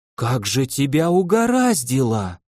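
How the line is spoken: Breathed out. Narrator (Russian): выдохнула она

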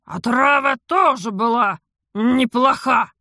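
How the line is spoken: Grumbling. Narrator (Russian): проворчал Тиен

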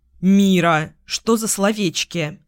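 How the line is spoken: Mock-stern tut. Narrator (Russian): Цокнула я нарочито строго

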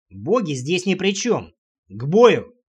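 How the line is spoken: Barking. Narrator (Russian): рявкнул

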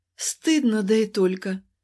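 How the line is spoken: Doomed moaning. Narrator (Russian): простонала обреченно

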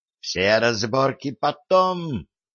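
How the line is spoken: Hissed. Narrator (Russian): зашипела на него Василиса

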